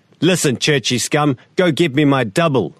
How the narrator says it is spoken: I shout

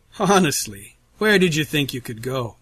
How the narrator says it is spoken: Russell asks, his tone jovial, yet somehow still dripping with menace

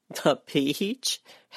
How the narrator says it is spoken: Helen's laugh ended in a sigh

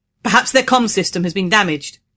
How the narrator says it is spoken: he said in a loud voice to make himself heard over the wind

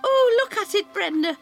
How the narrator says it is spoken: she cries

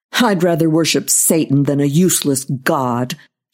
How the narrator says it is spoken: thought bitterly

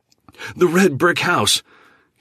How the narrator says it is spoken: he immediately shouted with excitement

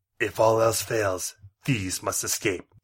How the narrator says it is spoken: he said

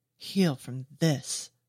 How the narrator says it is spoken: she snarls

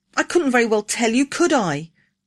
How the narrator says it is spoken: whined

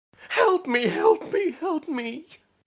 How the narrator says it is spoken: she screeched, her face contorted into an expression of the purest fear

